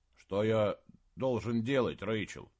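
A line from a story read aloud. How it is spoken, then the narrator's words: Displeased mumble. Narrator (Russian): недовольно пробормотал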